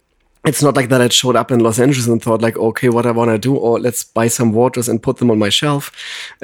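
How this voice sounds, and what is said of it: German accent in English. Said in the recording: “I'm originally from Germany and I think everybody can tell it right away when they listen to my voice right now, my accent.”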